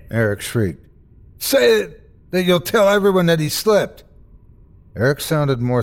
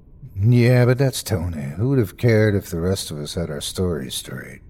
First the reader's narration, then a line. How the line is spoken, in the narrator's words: Eric answered, his voice flat